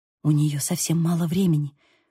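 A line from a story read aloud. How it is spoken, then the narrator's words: Whisper. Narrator (Russian): прошептала я Бейлу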